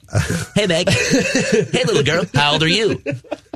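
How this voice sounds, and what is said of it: Imitates cartoon character Quagmire's voice. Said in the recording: “Nobody sounds like Quagmire.”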